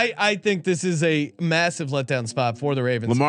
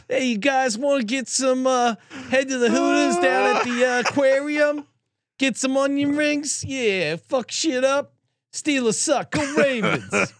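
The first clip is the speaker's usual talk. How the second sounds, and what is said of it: Imitated Baltimore accent. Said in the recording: “I can't do a great Baltimore accent”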